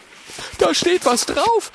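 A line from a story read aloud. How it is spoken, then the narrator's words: Excited call. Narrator (German): ruft Oskar aufgeregt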